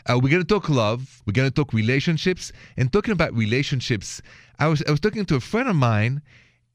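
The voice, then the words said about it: French accent. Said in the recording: “the accent is French, straight from Paris.”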